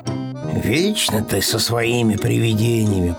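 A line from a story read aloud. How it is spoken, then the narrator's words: Grumbling. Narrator (Russian): проворчал Пэтсон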